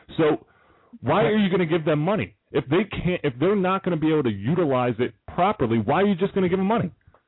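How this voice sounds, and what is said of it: Yelling, loud agitated voice. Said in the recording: “you're yelling”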